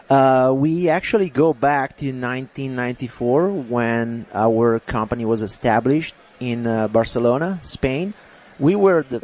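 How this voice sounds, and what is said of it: Speaks English with an accent. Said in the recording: “Is that why you got an accent? ... The accent is not going to go anywhere.”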